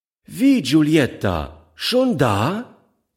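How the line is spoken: Calling to a child. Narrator (German): rief sie dem Kind zu

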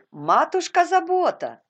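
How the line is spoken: Shouting. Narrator (Russian): крикнула Резли

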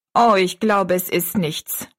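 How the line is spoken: Plain. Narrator (German): sagte sie

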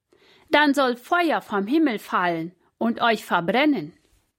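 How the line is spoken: Calls out. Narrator (German): rief er den Hauptmann zu

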